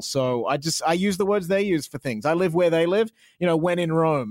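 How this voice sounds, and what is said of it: Australian accent. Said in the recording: “my Australian accent. I'm very proud of my Australian accent.”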